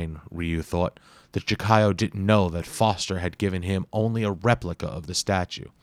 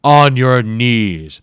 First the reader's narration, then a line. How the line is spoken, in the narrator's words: the Jakayo thundered